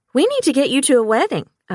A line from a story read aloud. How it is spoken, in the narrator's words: I exclaimed